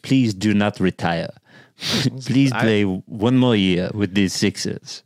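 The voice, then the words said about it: Put-on French accent. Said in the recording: “in my best French accent ... I don't love you starting to do accent works ... that was better than I expected”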